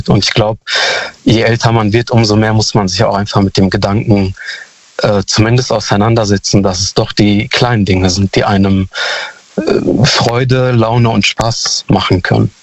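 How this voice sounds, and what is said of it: Youthful-sounding voice. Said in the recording (German): “du klingst noch Anfang 20”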